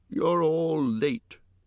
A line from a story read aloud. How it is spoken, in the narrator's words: he grumbled